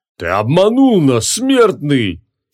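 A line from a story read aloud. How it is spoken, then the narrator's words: Furious roar. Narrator (Russian): яростно проревел один из них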